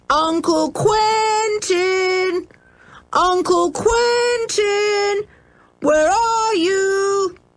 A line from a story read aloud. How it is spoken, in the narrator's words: they shouted loudly